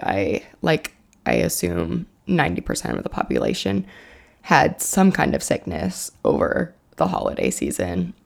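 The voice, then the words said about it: Groggy, raspy voice. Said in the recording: “my voice is a little groggy, raspy... sore throat, runny nose, and it's still lingering”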